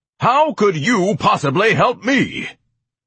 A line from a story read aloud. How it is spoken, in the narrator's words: Ignatius bellowed